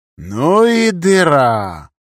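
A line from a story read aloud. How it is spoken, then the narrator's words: Drawled. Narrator (Russian): протянул я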